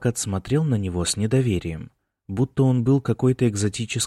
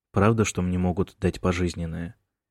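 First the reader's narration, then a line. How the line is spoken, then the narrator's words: Quiet question. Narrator (Russian): тихо спросил он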